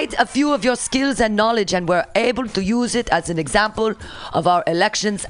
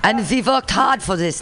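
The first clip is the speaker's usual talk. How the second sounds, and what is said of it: Attempted Russian accent. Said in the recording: “How do I sound like a Russian? ... I can't do a Russian accent.”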